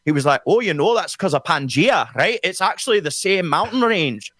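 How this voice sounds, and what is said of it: Good put-on Scottish accent. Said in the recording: “That's a really good Scottish accent”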